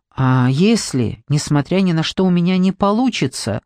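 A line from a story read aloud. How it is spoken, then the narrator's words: Plain. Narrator (Russian): спросила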